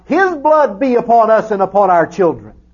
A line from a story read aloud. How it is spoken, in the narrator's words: They had cried out